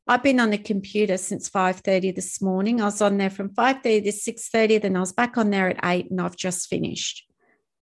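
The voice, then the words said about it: Tired-sounding voice. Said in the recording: “I'm tired and you guys can probably hear it in my voice”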